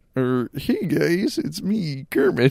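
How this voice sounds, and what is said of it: Weak Kermit the Frog impression. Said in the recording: “That wasn't even a good Kermit impression.”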